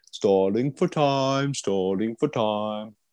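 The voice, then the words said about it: Somewhat British put-on accent. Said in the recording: “You have to do it in a somewhat British accent.”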